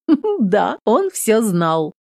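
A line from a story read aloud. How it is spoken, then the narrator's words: Chuckling confirmation. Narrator (Russian): хохотнув, подтверждает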